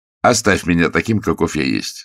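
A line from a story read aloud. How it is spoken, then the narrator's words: Plain. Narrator (Russian): сказал Водрейль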